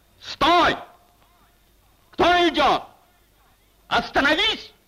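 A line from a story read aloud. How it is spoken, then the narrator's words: Shouted. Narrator (Russian): крикнул голос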